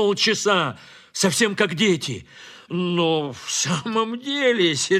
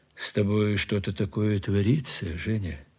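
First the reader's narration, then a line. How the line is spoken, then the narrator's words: Quiet. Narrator (Russian): сказал тихо Платонов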